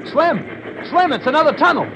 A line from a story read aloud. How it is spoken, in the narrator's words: called out